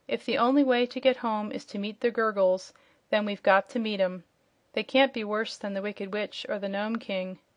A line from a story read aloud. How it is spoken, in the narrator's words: The wanderers were rather discouraged by this gloomy report, but Dorothy said with a sigh